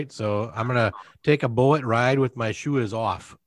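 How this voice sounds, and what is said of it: Bad put-on Canadian accent. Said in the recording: “my Canadian accent ... It's horrible. ... Not even Canadian. ... They pronounce all the vowels ... Nobody says it like that.”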